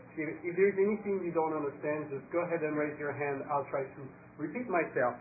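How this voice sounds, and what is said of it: French accent. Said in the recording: “I am French, so I apologize in advance for my accent.”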